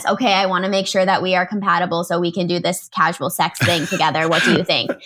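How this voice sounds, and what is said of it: Robot voice. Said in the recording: “in your best robot voice ... Yeah, that's my robot voice.”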